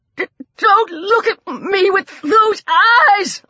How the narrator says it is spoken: old Coot shrieked

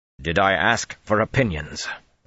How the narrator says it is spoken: Rand snapped harshly

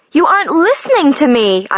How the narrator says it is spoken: I yell

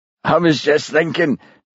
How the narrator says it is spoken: gasped Jimmy

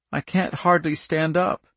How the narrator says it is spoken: she moaned

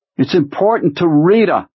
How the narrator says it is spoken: the skinny man called over the contending roar of the engines

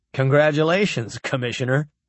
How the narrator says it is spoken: Rod laughed

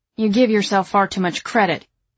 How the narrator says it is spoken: he says sharply

